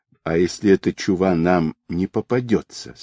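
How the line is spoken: Plain. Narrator (Russian): спросил Павел

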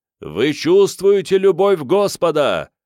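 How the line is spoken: Exclamation. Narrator (Russian): воскликнул Ман

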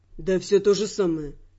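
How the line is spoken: Fairly calm reply. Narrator (Russian): откликнулся он, впрочем, довольно спокойно

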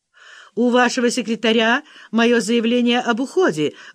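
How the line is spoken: Loud, into a phone. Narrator (Russian): громко сказала она в трубку телефона

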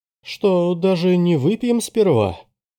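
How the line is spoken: Pleading. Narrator (Russian): взмолился Андерс

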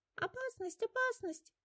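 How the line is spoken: Squeaking mice. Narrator (Russian): Пищали мышки

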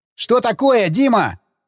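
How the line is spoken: Shouting. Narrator (Russian): закричал лейтенант

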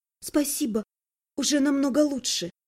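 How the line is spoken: Embarrassed whisper. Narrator (Russian): Марьюшка смущенно прошептав

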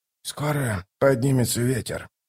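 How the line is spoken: Grumbling. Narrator (Russian): проворчал Дуджик

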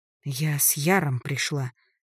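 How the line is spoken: Angry exhale. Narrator (Russian): зло выдохнула я

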